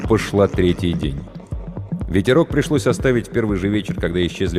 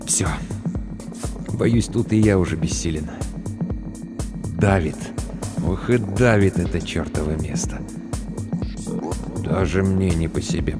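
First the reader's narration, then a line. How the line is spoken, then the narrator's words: Muttered. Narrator (Russian): пробормотал Тахашвили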